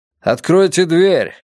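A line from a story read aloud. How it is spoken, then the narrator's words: Loud. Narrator (Russian): громко сказал он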